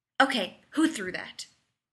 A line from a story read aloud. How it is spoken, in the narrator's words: Rodney snapped